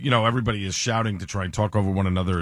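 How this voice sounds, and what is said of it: Strained, tired voice. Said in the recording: “my voice is a little strained ... overextended my voice”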